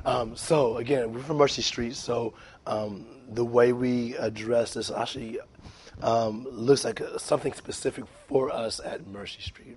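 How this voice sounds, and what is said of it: Hoarse voice. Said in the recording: “I'm a little hoarse today. ... I got my cold”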